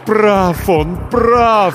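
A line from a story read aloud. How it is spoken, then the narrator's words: Moaned. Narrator (Russian): стонало покойное сердце, никогда не знавшее покоя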